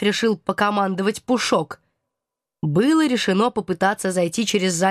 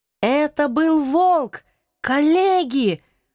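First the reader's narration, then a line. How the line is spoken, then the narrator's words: Hoarse excited exclamation. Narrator (Russian): осипшим от волнения голосом воскликнул профессор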